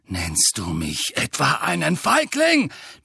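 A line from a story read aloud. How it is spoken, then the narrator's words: Roared. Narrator (German): brüllte Sirius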